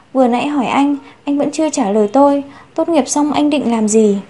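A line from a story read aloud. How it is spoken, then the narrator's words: Whispered question. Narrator (Vietnamese): Chu Tiểu Manh thì thầm hỏi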